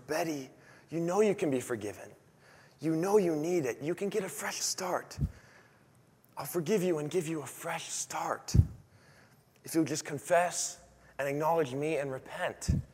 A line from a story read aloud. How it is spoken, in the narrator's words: God would whisper